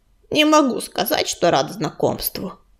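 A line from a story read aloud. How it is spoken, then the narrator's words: Gruff mutter. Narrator (Russian): буркнул он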